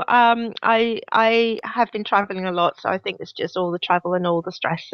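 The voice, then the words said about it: Weird, congested-sounding voice. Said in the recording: “I've got a bit of a, a cold, so my voice sounds a bit weird”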